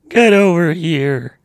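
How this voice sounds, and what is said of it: Performs a show character voice. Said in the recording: “do the Pres B voice,”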